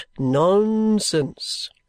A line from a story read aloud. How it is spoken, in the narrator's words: he said